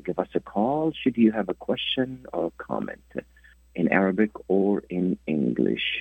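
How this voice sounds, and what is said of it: Voice sounds different, like a cold. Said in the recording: “I'm nursing a little cold, so my voice is a little bit different.”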